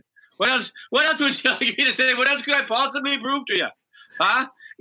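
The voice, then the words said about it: Put-on Irish brogue. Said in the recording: “I think I do the accent. The Irish dog is perfect... the Irish brogue”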